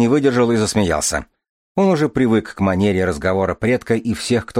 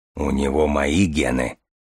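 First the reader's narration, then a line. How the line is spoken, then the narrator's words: Authoritative deep bass. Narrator (Russian): авторитетно пробасил Железовский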